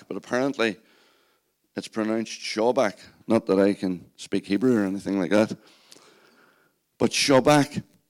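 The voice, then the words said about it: Strained voice from shouting. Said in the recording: “I don't know if you can tell in my voice, but I've been practicing my shouting... spent the whole day shouting at sheep... I'm doing battle with my voice”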